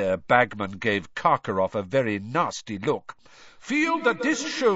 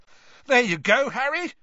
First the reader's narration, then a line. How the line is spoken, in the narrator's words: Ron shouted over the noise